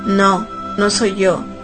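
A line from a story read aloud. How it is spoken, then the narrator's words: Man's broken voice. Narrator (Spanish): dijo el hombre con la voz quebrada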